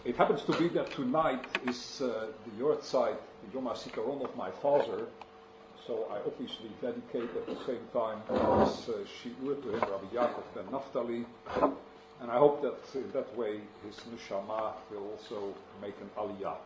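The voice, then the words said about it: Dutch accent in English. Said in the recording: “You will have to get used to my English. I'm originally from Holland, and that explains my accent”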